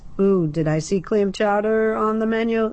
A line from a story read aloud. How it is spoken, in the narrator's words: Ned called out